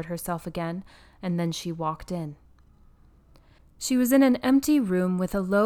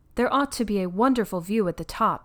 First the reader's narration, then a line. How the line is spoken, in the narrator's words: said Caroline firmly to herself